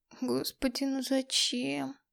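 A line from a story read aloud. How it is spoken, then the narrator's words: Moaning. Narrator (Russian): простонала я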